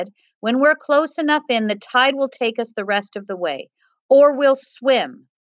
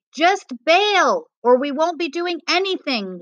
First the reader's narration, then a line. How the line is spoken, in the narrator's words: Luis cried